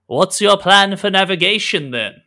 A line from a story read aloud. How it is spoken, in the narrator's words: shouts across the divide